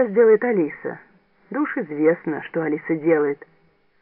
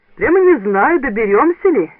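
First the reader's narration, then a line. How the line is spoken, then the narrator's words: Cheerful. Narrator (Russian): весело сказал он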